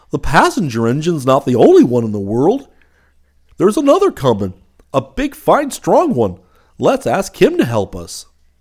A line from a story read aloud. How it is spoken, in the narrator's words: the little clown called out